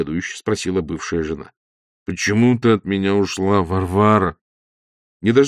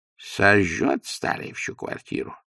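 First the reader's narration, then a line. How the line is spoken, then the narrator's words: Muttering. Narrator (Russian): бормотал он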